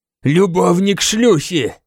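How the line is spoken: Growl. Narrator (Russian): прорычал он

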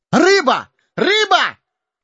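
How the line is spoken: Joyful yell. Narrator (Russian): радостно завопил хоббит

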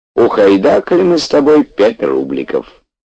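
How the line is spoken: Bitter yet cheerful, old man. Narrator (Russian): дед горько и весело объявлял Петьке

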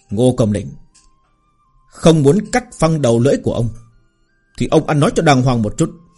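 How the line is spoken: Grim stern warning. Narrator (Vietnamese): Thái Phong sa sầm sắc mặt, gằn giọng cảnh cáo nói

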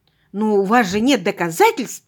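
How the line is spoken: Exclaimed. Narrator (Russian): воскликнула я

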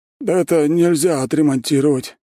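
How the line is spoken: Sad. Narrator (Russian): печально говорит он

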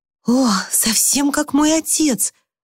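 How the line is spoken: Excited exclamation. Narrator (Russian): разволновавшись, воскликнула Люси

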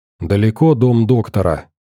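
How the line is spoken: Quiet question, female scientist. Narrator (Russian): тихо спросила ученая

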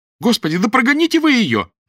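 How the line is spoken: Shouting. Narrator (Russian): закричала Нина

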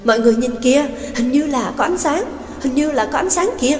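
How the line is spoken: Exclaiming. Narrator (Vietnamese): kêu lên

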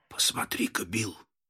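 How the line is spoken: Whisper. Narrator (Russian): прошептал Генри

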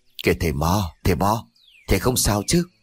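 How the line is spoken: Gentle concerned call. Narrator (Vietnamese): trường làng khẽ lay người rồi gọi

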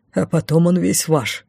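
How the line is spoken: Wry snort. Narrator (Russian): хмыкнул маг

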